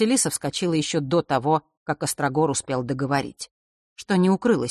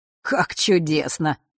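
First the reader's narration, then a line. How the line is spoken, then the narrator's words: Chuckling, cheerful. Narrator (Russian): хохотнул он, явно возвращаясь в прекрасное расположение духа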